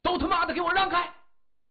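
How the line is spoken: Loud shout. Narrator (Chinese): 他大声喝道

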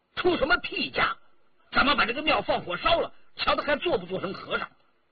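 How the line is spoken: Furious. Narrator (Chinese): 怒目圆睁

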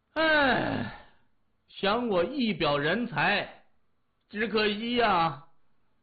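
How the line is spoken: Heartbroken sigh. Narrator (Chinese): 李爽心如刀割一般，他仰天长叹一声

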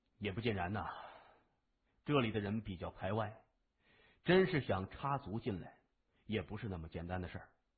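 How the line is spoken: Sighing. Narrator (Chinese): 东新雷叹了口气说

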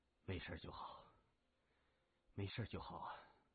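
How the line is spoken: Soft relieved mutter. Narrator (Chinese): 高振把心放了放，轻声嘟囔

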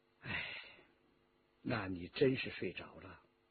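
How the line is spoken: Sighing. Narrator (Chinese): 叹了口气

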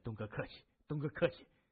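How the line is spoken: Flattered, quiet. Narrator (Chinese): 青年受宠若惊的低声施礼

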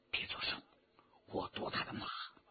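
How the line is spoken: Low voice. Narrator (Chinese): 徐天红低声说

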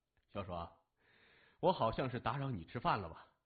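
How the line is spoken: Cheerful laughing question. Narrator (Chinese): 谢文东笑呵呵的问他

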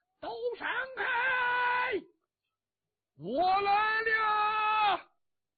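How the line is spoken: Distant shout. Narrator (Chinese): 远处有人喊

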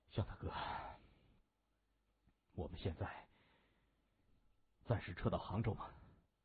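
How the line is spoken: Quiet question. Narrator (Chinese): 萧芳低声的问

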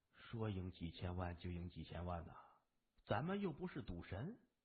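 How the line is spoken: Quiet muttering. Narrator (Chinese): 聂天行小声嘟囔着

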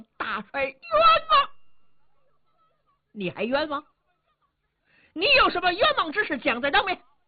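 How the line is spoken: Loud shouting. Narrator (Chinese): 马武高声喊嚷

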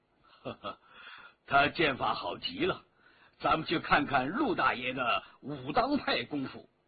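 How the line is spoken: Slight smile. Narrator (Chinese): 微微一笑

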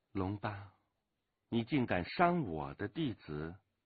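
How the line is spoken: Calm, indifferent. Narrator (Chinese): 突然之间 有一个人淡淡的说

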